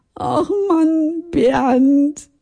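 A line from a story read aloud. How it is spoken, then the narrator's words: Sobbing. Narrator (German): ich schluchzte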